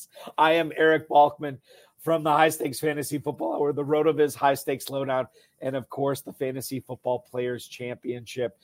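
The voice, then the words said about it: Rough, impaired speaking voice. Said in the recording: “I do apologize for my voice in advance. This is going to be a rough one”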